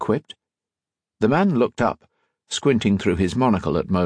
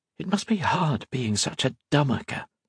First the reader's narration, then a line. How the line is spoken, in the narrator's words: Octavia whispered